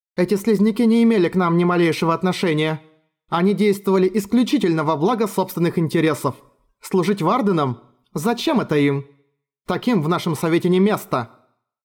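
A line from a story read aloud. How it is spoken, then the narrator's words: Angry clipped speech. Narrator (Russian): Сабра, сердито тряхнув головой, отчеканила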